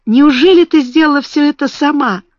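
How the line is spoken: Joyful tearful sob. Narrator (Russian): Бекки радостно всхлипнула, и слезы восторга показались у нее на глазах

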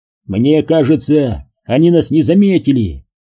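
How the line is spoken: Shouted. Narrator (Russian): прокричал Ньюком

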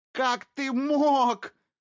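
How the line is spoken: Shout. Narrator (Russian): закричала Колет

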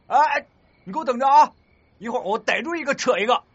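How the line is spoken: Boy shouting. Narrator (Chinese): 那个男生……吼道

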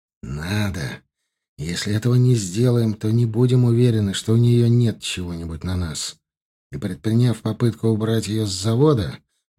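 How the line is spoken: Said after deep breath. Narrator (Russian): Глубоко вздохнув, Захаров сказал

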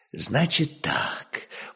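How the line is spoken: Tired merchant. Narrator (Russian): молвил купец устало

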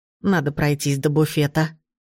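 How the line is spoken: Old woman mumbling. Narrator (Russian): пробормотала бабушка

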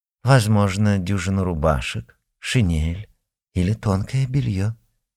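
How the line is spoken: Soft but firm correction. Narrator (Russian): Мягко, но отрубая все мужские надежды, поправила

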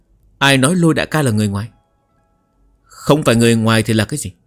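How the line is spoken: Cold. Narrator (Vietnamese): Phu nhân sắc mặt lạnh lùng nói

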